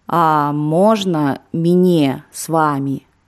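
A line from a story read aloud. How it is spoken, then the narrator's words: Plain. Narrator (Russian): спросила Клава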